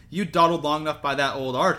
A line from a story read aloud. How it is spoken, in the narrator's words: she said crossly